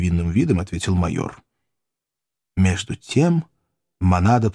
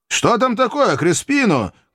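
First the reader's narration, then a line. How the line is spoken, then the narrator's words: Shouting. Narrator (Russian): крикнул он мексиканцу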